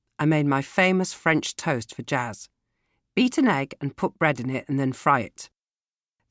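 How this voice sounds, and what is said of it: Usual voice. Nothing is said of it.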